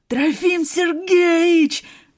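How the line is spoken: Yelled. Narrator (Russian): заорал Сашка

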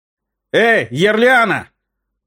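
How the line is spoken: Restrained call. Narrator (Russian): Крикнул он не очень громко

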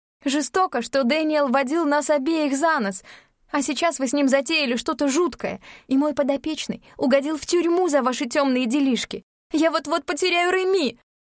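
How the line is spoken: Shouting. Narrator (Russian): Она уже кричала

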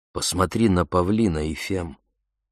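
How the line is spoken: Soft soothing male voice. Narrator (Russian): произнес он мягко, словно учуял ее раздражение

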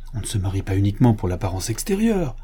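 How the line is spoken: Piqued tone. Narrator (French): fit Madame de la Rouvray d'un ton piqué

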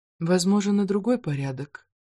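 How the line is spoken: Quiet. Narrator (Russian): тихо отозвалась Филиппа

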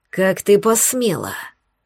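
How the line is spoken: Hissed. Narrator (Russian): прошипела она

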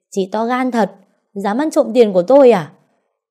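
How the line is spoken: Screaming. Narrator (Vietnamese): Cái Trinh gào lên

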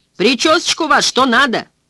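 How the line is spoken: Shouted after someone. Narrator (Russian): вслед ему крикнул Дики

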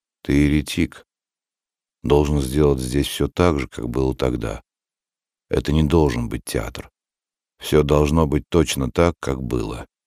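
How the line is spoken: Gloomy, hostile. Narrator (Russian): Никон тоже замолчал, а затем неожиданно для Сертана мрачно и неприязненно сказал

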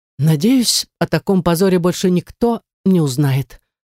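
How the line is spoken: Elf sighing. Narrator (Russian): вздохнул эльф

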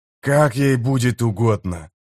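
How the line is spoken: Growled. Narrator (Russian): прорычал Кеннеп

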